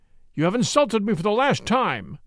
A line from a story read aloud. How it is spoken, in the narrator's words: he cried, springing to his feet